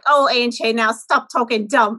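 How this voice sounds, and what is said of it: Pennsylvania Dutch accent impression. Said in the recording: “who was so Dutchy ... That's such a good accent.”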